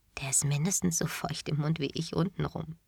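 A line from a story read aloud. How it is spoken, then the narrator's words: Quiet, suppressing giggles. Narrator (German): Ich unterdrückte mein Kichern und sagte leise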